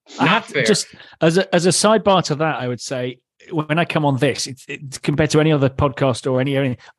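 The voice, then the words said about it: British accent. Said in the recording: “the British accent makes him sound smarter than everybody”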